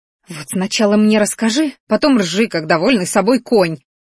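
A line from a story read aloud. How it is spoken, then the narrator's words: Angry hiss. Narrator (Russian): злобно прошипела она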